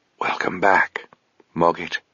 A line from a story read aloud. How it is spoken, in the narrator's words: whispered Sabriel